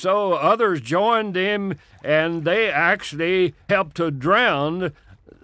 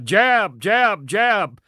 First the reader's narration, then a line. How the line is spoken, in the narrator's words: He hollered out